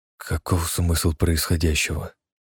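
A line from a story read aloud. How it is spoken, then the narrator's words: Quiet. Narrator (Russian): тихо произнес он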